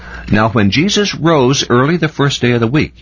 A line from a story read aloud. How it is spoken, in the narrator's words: he shouted